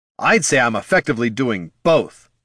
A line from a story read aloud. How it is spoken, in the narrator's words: snapped Jin